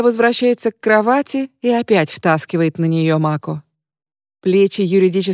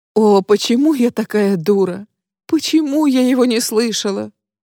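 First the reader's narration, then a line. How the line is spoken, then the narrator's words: Self-reproachful sobbing. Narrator (Russian): рыдает она, истязая себя самообвинениями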